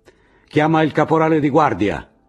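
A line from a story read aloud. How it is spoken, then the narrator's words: Shouted inside. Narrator (Italian): gridò dentro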